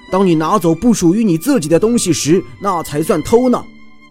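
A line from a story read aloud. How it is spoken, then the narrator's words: Angry roar. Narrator (Chinese): 熊怒吼道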